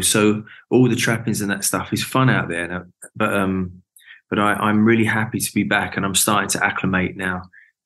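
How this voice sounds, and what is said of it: London accent. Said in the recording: “you've still got your London accent”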